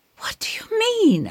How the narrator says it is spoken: I gasp

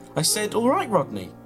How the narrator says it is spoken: repeated, desperately trying to make a connection

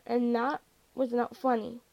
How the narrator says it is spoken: Josh mumbled through sleep

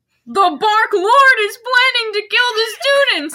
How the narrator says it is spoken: yelled Cornelia Fudge

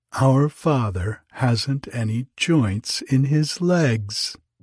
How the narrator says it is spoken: the children laughed out and said

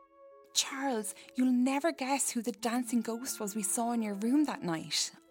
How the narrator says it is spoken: I exclaimed excitedly

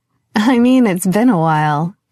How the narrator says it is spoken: Carmelita laughed

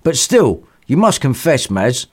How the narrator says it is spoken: said the godfather

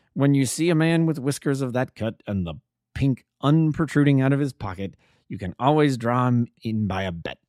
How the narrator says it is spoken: said he

